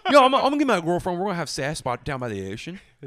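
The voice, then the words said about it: Put-on Baltimore accent. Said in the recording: “Steer into the Baltimore accent.”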